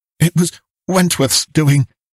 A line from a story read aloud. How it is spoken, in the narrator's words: he panted